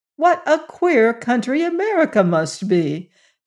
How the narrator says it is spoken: exclaimed in great surprise

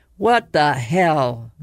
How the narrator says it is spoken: Mayan cut him off, his voice trembling

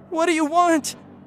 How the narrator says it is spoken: I screamed

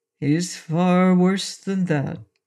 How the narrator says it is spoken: said Pon mournfully

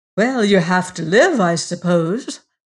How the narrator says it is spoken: replied Martha Pym cheerfully

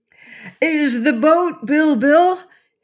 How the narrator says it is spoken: he cried joyfully

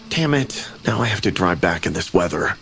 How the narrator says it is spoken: I murmured to myself in a low voice

